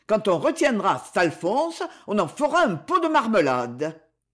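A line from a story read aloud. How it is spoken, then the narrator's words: Shouted in chorus. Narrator (French): s'écrièrent-ils en chœur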